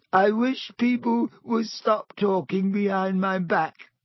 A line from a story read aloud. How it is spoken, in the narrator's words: said Myrtle in a voice choked with tears